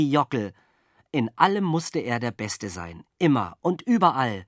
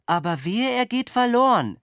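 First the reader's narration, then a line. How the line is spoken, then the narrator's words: Calling after. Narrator (German): rief die Taube ihm hinterher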